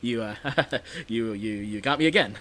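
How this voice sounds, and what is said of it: Imitates another person's voice, jittery laugh. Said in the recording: “that's my Goldblum... Great Goldblum impression... You got his jittery laugh down perfectly.”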